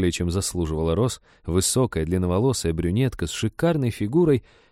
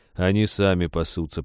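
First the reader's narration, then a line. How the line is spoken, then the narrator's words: Grumbling. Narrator (Russian): проворчал лесник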